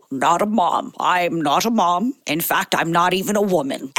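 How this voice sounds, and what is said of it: Put-on accent in a male character voice. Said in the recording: “read today's in character ... the character is not a woman ... maybe a wolf ... do it in an accent, which annoys me”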